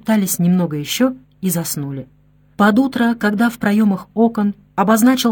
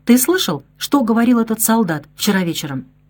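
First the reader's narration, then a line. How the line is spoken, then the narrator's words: Whispered in ear. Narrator (Russian): прошептал ему на ухо тосканец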